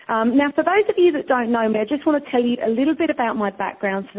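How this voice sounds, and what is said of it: British accent. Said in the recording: “accent... I'm from the UK”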